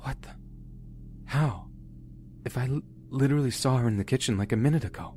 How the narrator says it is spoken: said, whispering

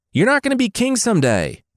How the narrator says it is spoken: the king barked

